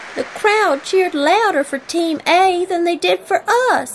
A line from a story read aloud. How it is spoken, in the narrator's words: whined Lorry